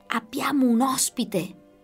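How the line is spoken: Whisper. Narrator (Italian): sussurrò Osvaldo

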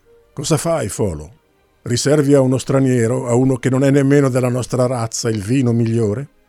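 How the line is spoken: Gruff, half-joking shout. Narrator (Italian): Gruante gridò in tono più burbero che scherzoso

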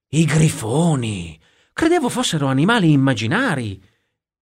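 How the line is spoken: Exclaimed. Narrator (Italian): esclamò Gustavo

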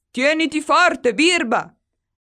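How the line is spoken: Pilot shouting. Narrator (Italian): grida il pilota

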